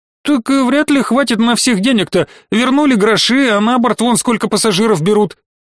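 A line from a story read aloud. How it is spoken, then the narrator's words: Squeak from behind. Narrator (Russian): пискнул кто-то из-за спин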